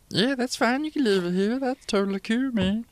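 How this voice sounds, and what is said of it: Gnome character voice. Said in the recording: “What is this accent ... It's a gnome”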